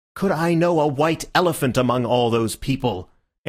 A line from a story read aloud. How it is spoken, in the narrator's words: answered Syme somewhat irritably